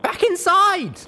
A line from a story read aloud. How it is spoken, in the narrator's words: I shouted